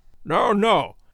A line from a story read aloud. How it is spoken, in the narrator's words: cried Holmes